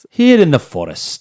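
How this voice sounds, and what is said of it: Poor David Attenborough impression, Irish-sounding. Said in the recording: “He's got the best narration voice ... That was a terrible impression. ... No, you went Irish on that. ... I did. I went Irish.”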